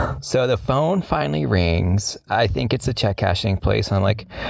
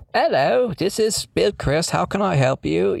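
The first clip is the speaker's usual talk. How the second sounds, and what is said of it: Put-on foreign accent. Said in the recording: “answer the phone in like a foreign accent ... why the hell would Dad speak in a foreign accent?”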